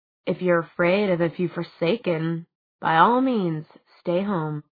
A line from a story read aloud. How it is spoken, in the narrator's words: he said softly